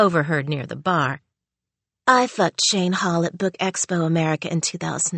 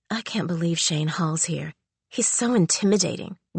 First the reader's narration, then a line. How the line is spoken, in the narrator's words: whispered a wide-eyed young author